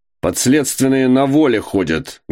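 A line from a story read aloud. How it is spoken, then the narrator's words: Loud barking shout. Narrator (Russian): гаркнул виконт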